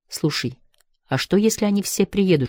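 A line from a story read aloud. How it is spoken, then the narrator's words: Whispering in ear. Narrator (Russian): шепнула она ему на ухо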